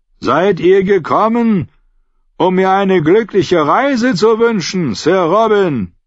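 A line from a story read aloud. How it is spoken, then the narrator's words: Shouting across water. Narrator (German): Als die Boote noch 50 Meter voneinander entfernt waren, legte Jaime die Hände trichterförmig an den Mund und rief über das Wasser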